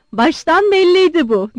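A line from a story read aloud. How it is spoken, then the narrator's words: Shouted. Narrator (Turkish): diye bağırdı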